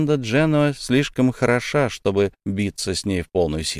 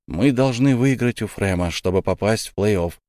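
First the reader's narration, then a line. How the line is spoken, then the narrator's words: Calm. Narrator (Russian): спокойно произнес Илья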